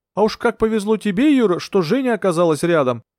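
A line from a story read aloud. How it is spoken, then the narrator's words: Grumbled. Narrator (Russian): пробурчал Скоробогатов Горбунову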